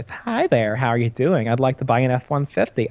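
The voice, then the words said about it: Stereotypical lispy put-on voice. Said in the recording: “put on my gay voice... Just stereotypical lispy gay voice”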